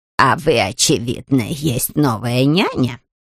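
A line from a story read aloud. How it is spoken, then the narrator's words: Creaky witch voice. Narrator (Russian): проскрипела ведьма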